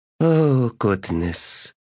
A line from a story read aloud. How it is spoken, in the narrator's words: sighed Lady Envy